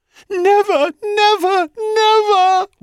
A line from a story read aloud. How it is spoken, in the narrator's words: wailed Echo